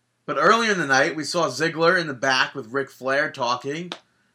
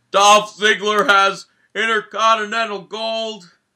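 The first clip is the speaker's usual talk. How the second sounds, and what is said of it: Poor imitation of another person's voice. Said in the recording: “That was a terrible impression.”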